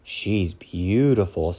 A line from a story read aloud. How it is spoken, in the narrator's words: sighed Bashful